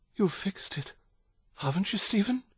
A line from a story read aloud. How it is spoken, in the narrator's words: she whispered